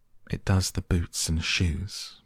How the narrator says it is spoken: the Gryphon replied very solemnly

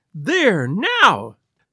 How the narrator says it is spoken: she cried, throwing back her head and looking defiantly at Lestrade

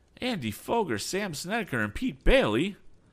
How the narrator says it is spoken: he cried

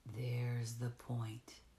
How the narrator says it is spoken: he answered slowly, for there has apparently been a fresh outburst, an attack almost

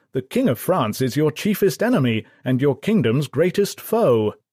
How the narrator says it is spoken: With an invasion fleet less than 100 miles away, Gloucester and Arundel exclaimed in a state of disbelief

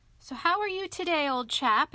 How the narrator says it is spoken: inquired the Rat cheerfully

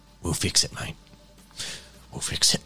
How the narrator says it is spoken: he whispers

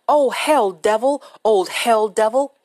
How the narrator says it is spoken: screamed

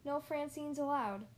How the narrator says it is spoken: Olivia too said sadly

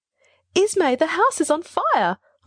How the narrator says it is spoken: shrieked

